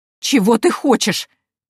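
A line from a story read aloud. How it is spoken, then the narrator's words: Choked exclamation. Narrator (Russian): сдавленно воскликнула невестка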